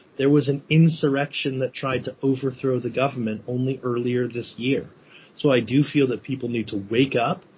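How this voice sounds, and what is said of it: American accent. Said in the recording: “You can probably hear from my accent that I'm an American.”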